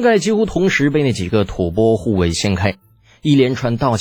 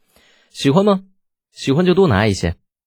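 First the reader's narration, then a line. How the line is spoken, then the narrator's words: Soft chuckle. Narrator (Chinese): 李浩轻笑着说道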